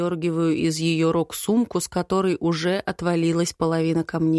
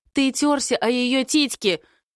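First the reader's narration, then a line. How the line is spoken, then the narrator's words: Small girl shrieking. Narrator (Russian): взвизгивает мелкая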